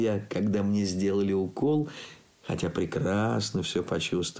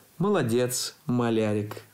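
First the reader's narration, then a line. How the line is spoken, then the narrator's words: Plain. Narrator (Russian): сказала докторша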